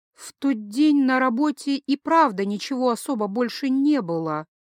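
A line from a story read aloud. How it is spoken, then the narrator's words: Uncertain, hesitant. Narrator (Russian): неуверенно произнесла она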